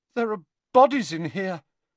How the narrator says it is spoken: said Harry, and his voice sounded much higher than usual and most unlike his own

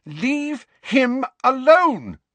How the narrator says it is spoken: Lily shouted

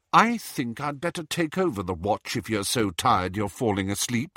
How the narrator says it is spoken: said Hermione coldly

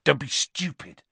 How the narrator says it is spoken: said Ron sharply

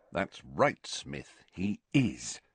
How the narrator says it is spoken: muttered Harry, grinning to himself

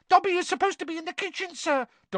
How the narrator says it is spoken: Dobby squealed

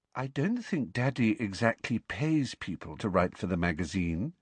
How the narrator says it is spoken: said Luna dreamily

